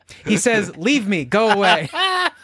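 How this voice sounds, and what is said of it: Imitates another person's voice. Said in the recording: “We're doing a little bit of a Montalban accent there.”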